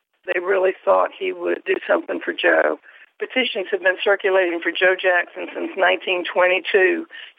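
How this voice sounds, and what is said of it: Gravelly, slightly hoarse voice. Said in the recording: “my voice is a little gravelly today because I've talked to so many people”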